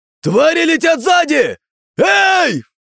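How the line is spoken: Crowd shouting, overwhelmed. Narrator (Russian): Не выдержав, наблюдающие за воздушным представлением люди закричали

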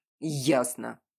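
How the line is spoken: Barked. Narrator (Russian): рявкнул Альфа

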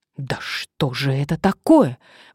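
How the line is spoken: Angry exclamation. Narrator (Russian): воскликнула Мария в сердцах

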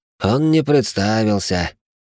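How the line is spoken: Heavy sigh. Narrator (Russian): тяжело вздохнул инспектор

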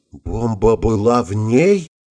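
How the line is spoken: Frightened whisper. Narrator (Russian): побледнев как полотно, прошептал Ватсон

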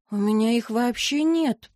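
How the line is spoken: Confession with forced smile. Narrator (Russian): призналась, выдавив улыбку

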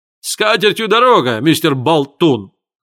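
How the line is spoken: Yelled after someone. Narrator (Russian): завопил ему вдогонку Мелтон

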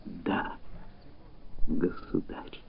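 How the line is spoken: Very quiet whisper. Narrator (Russian): шепнула так тихо, что это могла слышать одна Гортензия

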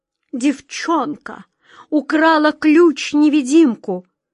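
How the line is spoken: Queen's moan. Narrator (Russian): простонала королева

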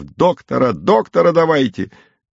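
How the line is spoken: Wailing, shouting voices. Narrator (Russian): Ахала и вопила мать, голосила Текля, кричал повар Новиков

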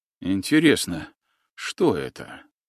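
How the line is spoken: Whispered wondering. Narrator (Russian): шепотом гадал Еремеев

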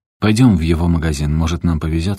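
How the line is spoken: Plain. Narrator (Russian): сказал Эстибалис

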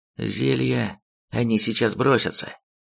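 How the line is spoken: Even-voiced warning. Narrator (Russian): Ровным голосом предупредил Косточка

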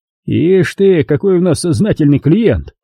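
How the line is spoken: Chuckling. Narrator (Russian): хохотнул подполковник

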